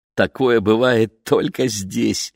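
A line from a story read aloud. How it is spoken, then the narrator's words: Laughing. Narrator (Russian): рассмеялась Лени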